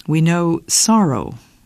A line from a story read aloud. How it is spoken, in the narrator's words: Paul said